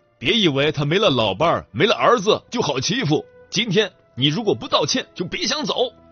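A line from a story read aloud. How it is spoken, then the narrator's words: Angry roar. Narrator (Chinese): 有一个人 吼道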